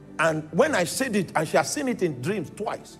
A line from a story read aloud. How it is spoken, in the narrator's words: she shouted